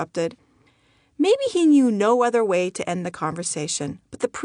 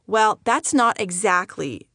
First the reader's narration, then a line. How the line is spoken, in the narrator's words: he said